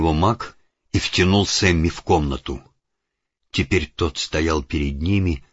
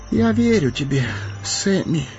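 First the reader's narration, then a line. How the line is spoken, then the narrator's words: Hoarse voice. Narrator (Russian): хрипло проговорил он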